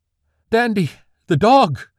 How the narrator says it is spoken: Magnolia cried out

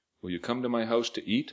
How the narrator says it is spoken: I asked

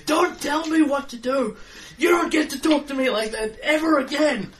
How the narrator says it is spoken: Yell back

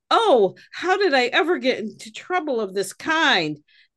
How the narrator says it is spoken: Arthur reportedly covered his face with his hands and cried

